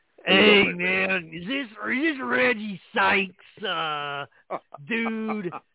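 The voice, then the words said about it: Imitates another person's voice. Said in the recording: “your Jim Irsay impersonation voice”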